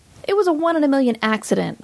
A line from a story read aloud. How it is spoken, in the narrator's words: I snapped